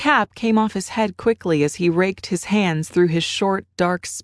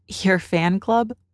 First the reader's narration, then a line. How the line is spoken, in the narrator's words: she questioned teasingly